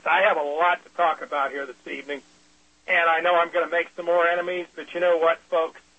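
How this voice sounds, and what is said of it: Slightly rough, hoarse voice. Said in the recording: “I haven't been feeling well, fighting off a cold, maybe a flu ... My voice is a little rough, but then again, it always is.”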